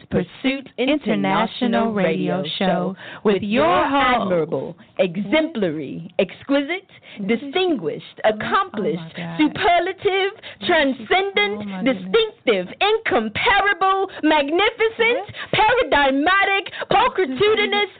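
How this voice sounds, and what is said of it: Put-on fancy accent. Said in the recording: “with that accent and those words”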